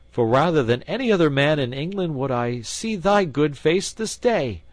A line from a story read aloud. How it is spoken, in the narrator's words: cried he